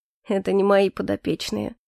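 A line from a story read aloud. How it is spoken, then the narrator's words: Gentle objection. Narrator (Russian): мягко возразил Эльфорте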